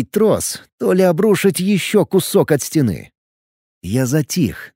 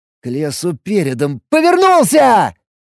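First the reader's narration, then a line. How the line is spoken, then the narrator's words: Shouted. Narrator (Russian): закричал я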